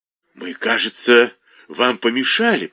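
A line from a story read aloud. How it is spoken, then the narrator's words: Hissed. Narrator (Russian): прошипел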